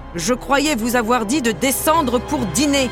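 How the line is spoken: Roaring. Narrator (French): rugit-il

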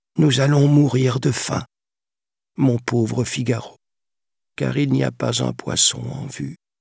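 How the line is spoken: Sculptor sighing. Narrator (French): soupira le sculpteur

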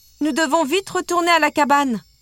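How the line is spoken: Shouted. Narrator (French): cria-t-elle

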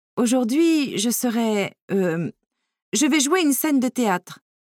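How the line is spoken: Nervous stammer. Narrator (French): bégaya-t-elle nerveusement

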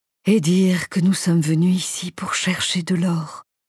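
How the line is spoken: Sighing. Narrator (French): soupira-t-il

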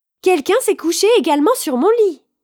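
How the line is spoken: Exclaimed. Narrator (French): Petit ours vit Boucle d'or endormi dans son lit et s'écria

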